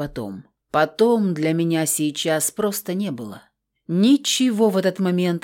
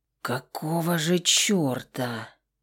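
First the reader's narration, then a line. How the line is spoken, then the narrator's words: Hoarse mutter close behind. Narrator (Russian): хрипло пробормотал в мой затылок Декурион Крор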